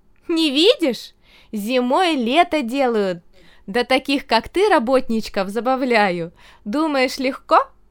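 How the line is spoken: Laughing woman. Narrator (Russian): засмеялась

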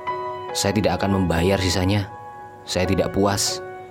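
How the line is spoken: Man snapping angrily. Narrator (Indonesian): bentak laki-laki itu

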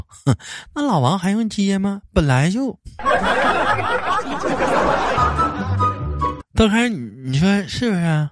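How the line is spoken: Scornful laugh. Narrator (Chinese): 我媳妇儿嗤之以鼻的笑道

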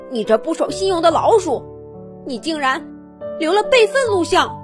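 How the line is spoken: Angry roar. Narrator (Chinese): 萨姆 他冲上去吼道

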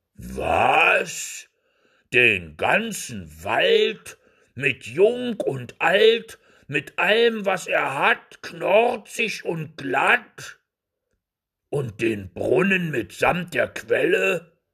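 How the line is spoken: Fearful giant muttering. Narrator (German): brummte der leichtgläubige Riese in den Bart und fürchtete sich noch mehr

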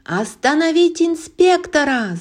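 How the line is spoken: Yell. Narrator (Russian): завопил Реми

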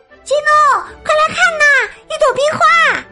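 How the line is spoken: Shouting. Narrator (Chinese): 他朝基努大喊

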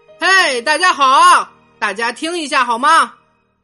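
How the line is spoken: Sudden loud shout. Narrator (Chinese): 爸爸突然大声叫道

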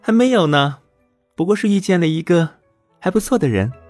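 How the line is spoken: Shy, coy laugh. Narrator (Chinese): 悠悠娇羞一笑

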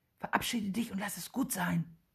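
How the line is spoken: Whispered. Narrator (German): flüstert Willi Benny zu

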